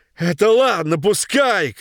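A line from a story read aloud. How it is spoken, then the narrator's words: Old man shouting. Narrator (Russian): кричал дед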